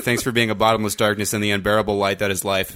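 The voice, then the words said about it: Clipped telegram-style reading. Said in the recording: “Why did you read that like a telegram?”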